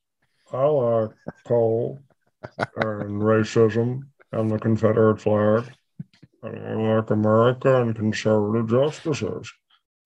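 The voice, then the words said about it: Kentucky accent, imitates another person's voice. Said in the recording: “Mitch McConnell ... So that's one accent from Kentucky”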